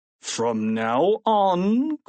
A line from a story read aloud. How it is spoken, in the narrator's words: growled Mr